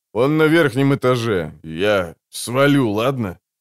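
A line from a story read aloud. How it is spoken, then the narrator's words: Hoarse but steadier. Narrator (Russian): Он еще хрипел, но говорил уже гораздо лучше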